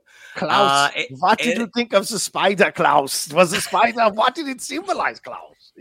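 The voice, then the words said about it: Put-on German accent. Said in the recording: “you adopted a German accent”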